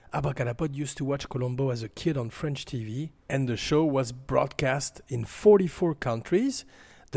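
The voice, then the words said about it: Very heavy French accent. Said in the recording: “a host with a very heavy French accent”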